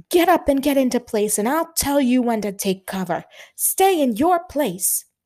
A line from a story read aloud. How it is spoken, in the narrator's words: the Australian Brigadier General was running against the flow of crawling men, yelling at them